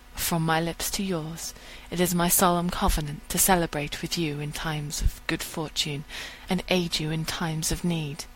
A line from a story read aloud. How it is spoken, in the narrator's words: She smiles, murmuring